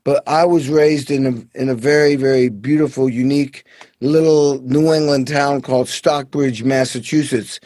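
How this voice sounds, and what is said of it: Slight New York accent. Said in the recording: “I could hear a little bit of your accent ... what you might be hearing is my New York accent”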